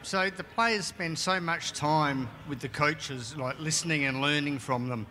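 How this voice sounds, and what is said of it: Heavy Australian accent. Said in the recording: “He has a lengthy question with a heavy accent ... We have ... from Australia”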